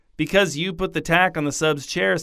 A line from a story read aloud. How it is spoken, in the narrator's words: said Janet